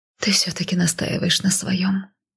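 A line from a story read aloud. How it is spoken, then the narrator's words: Resigned mutter. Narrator (Russian): пробормотала я, признавая свое поражение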